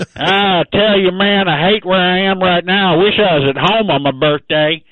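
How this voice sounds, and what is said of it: Put-on Texan accent. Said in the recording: “You've just completely dropped your Slovenian accent... Texas through and through”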